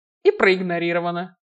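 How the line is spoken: Scoffing grunt. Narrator (Russian): хмыкнул Киган

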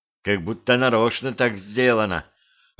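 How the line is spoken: Whispered. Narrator (Russian): прошептала вампирша

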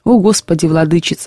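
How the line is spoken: Sighing. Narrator (Russian): вздохнул Пантелей

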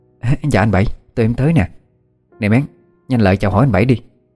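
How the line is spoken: Eager, fussy greeting. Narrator (Vietnamese): Chị em Nụ rối rít chào hỏi

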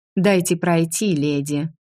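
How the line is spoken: Dry. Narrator (Russian): сухо сказала я

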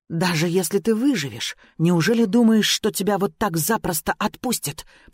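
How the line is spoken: Hissing. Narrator (Russian): прошипела

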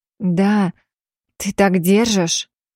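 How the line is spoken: Breathy exhale. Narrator (Russian): Выдохнула я

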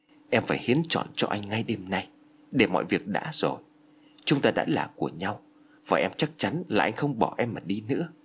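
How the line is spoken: Soft whisper in ear. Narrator (Vietnamese): nói khẽ bên tai của Phước

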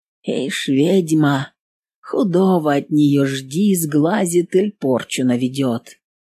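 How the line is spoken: Whispered gossip. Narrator (Russian): за спиной своей шепотки

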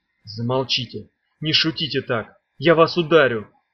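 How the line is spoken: Quiet voice. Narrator (Russian): тихо сказал Мед

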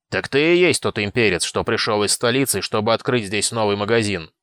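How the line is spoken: Deep bass voice. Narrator (Russian): пробасил

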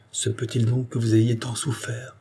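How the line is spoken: Murmuring. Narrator (French): murmura-t-il

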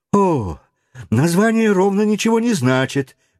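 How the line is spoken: Stubborn argumentative exclamation. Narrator (Russian): воскликнул Паганель, любивший спорить и потому упрямо стоявший на своем

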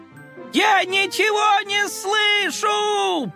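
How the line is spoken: Sly shout. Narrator (Russian): прокричал хитрый Коржик

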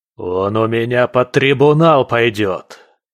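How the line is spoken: Barking. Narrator (Russian): рявкнул искатель

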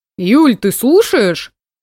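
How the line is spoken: Offended call. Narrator (Russian): Обиженно окликнул Сеня

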